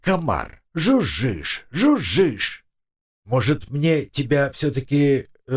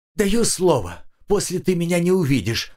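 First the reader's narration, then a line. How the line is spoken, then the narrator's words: Rapid chatter. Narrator (Russian): затараторил Семен Маркович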